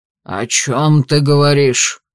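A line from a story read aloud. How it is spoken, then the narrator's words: Angry. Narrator (Russian): сердито выдал герцог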